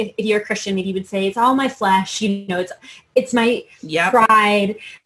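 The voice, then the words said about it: Very fast, excited, jumbled speech. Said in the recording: “I'm getting so jumbled. ... I'm talking so fast. ... I'm really excited about this.”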